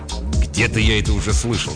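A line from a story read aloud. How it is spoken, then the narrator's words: Grumbled. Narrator (Russian): пробурчал Фрэнк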